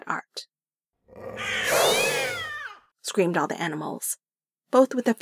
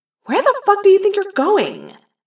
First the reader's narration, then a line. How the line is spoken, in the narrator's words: I yelled